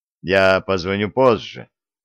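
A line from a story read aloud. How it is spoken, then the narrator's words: Dull muffled voice. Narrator (Russian): глухим голосом произнес Стив Грейс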